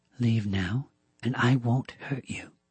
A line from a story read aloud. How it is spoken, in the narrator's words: Joe said, her voice low and calm